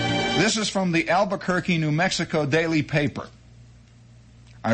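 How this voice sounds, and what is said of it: Usual voice. Nothing is said of it.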